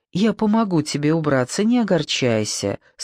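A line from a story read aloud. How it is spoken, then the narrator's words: Plain. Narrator (Russian): сказала Надя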